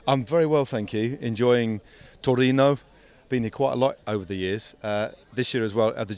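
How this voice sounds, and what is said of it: British English accent. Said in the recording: “with a British accent like this”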